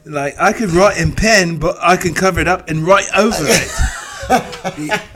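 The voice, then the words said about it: Put-on accent. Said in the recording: “I don't know why I'm using that accent, because he did not have that accent.”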